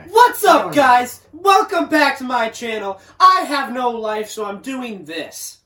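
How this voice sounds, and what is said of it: Imitates a typical YouTuber voice. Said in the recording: “That was my best impression. ... any YouTuber ever.”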